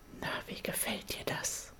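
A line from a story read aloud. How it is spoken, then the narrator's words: Familiar voice whispering in ear. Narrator (German): flüstert die bekannte Stimme in mein Ohr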